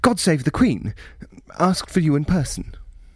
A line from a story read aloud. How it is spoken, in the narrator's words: Chambers said, and then, as if a coil sprung in his voice box, blurted mid-sentence